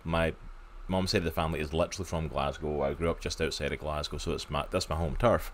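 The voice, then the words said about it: Scottish accent. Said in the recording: “I am Scottish, in case you haven't told from my accent”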